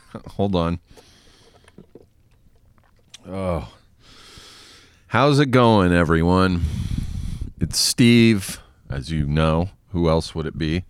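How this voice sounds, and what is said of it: Breathless, out of breath. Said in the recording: “out of breath”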